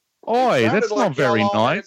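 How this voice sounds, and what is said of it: Bad put-on Australian accent. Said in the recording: “you are the most shitty Australian person I've ever heard in my entire life”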